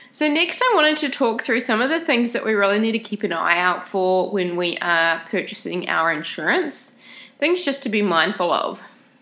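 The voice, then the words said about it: Nasal, congested voice. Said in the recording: “I have a cold. I don't know if you can tell if I sound all nasally and funny ... my voice sounds really funny ... you sound like you're talking through your nose”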